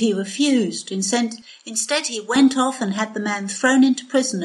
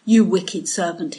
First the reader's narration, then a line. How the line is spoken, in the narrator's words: he said